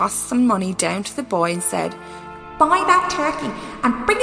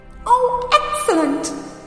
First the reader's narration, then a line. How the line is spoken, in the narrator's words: chuckled Scrooge